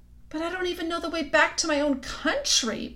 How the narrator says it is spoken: pleaded Edmund

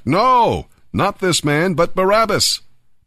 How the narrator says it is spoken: But they shouted back

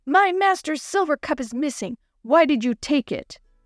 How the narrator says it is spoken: He shouted

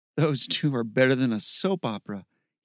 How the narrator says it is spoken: he chuckled

